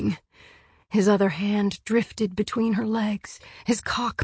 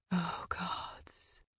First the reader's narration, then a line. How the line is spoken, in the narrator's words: whispered against her spine